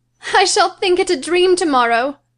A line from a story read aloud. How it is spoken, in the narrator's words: she cried